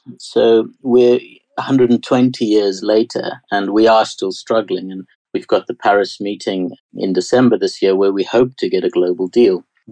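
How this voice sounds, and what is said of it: South African accent. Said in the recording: “My strange accent is South African”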